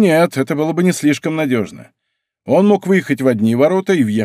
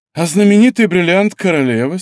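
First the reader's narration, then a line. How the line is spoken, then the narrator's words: Sighing. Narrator (Russian): сказал Д'Артаньян, вздохнув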